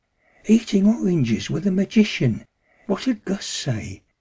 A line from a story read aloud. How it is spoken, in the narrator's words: murmured, half in a trance